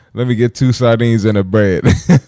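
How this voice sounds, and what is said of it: Attempted Jamaican accent. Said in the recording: “I don't know how to do the Jamaican accent.”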